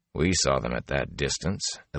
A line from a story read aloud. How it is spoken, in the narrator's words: Elias said dryly